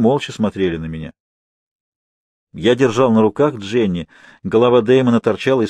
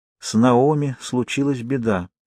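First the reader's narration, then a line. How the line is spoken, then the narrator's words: Quiet. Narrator (Russian): тихо произнесла она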